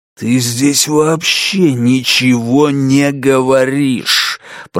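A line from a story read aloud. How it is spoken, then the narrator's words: Growl. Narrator (Russian): прорычал мистер Гонт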